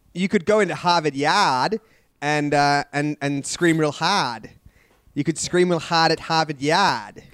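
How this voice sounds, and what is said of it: Put-on Boston accent. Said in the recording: “He's doing a Boston accent. ... Doing a Bostonian accent?”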